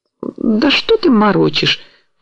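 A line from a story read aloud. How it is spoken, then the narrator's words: Hurt timid speech. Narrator (Russian): произнесла обиженно робко Галина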